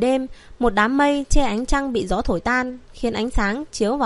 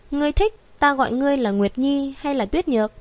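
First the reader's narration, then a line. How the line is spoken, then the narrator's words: Gentle, smiling. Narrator (Vietnamese): hắn mỉm cười nhẹ nhàng nói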